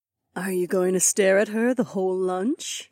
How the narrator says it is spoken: Aliona whispered

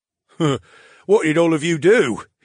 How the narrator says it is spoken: He chuckled

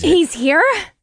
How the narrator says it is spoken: Deja gasped as she whipped around to stare into the back seat with wide eyes

